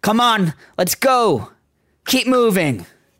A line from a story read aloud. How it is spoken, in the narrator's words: two different people shouting